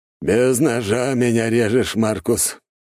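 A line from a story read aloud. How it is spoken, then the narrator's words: Wry snort. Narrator (Russian): хмыкнул майор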